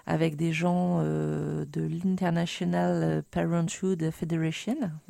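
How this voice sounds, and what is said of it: Heavily accented English pronunciation. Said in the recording (French): “Vous excuserez mon super accent.”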